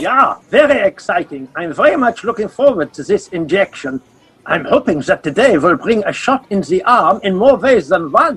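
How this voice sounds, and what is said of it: German accent. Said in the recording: “the accent. German, isn't he?”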